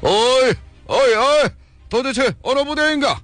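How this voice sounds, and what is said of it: Loud shouting in regional dialect. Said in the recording (Korean): “사천 사투리로 크게 소리를 지었다”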